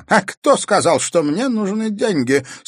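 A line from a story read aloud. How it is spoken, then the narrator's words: Question, then shrill laugh. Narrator (Russian): спросил Ипполит Германович и визгливо рассмеялся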